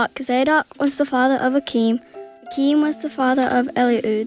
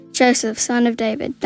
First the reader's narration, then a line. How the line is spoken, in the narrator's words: the angel said